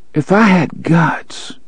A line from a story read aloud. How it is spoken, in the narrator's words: she murmured